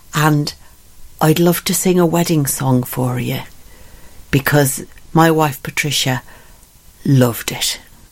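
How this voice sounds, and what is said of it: Deliberately poor put-on Irish accent. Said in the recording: “forgive my terrible Irish accent.”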